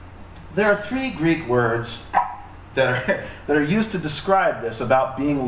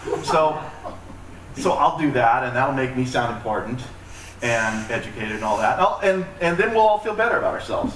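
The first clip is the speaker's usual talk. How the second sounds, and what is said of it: Sarcastic tone. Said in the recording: “that was sarcastic”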